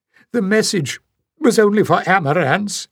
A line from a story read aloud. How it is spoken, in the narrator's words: choked